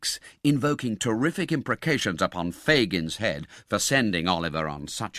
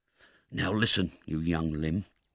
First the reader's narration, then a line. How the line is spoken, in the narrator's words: whispered Sykes